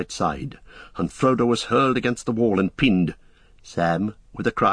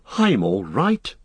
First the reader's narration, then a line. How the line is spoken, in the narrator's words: gasped Frodo